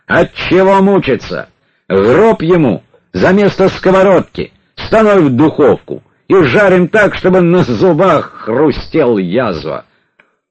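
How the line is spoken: Resolute man barking. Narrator (Russian): брандмайор, мужчина решительный, гаркнул

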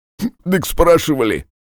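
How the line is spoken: Snort. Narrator (Russian): хмыкнул Марик

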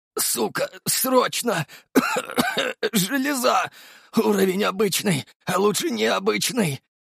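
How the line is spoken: Exhausted strained forcing out. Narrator (Russian): На последних силах выдавил я из себя

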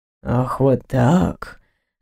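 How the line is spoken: Dangerously quiet question. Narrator (Russian): опасно тихо спросил он

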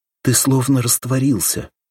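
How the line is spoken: Said fearfully. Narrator (Russian): испуганно сказала

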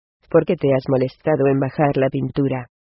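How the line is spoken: Plain. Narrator (Spanish): le preguntó ella

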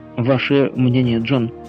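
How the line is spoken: Plain question. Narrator (Russian): спросил Гленарван

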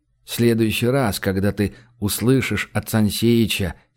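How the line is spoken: Soft rhythmic singsong. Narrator (Russian): произнес ритмично, мягко, слегка нараспев

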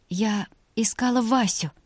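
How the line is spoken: Unexpectedly quiet. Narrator (Russian): неожиданно тихо сказала Вика

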